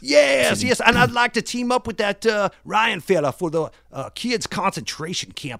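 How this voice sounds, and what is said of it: Thick Japanese accent. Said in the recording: “my thick Japanese accent. I hope you could understand some of the words. Some of my dialect from Japan ... It is a little difficult, admittedly”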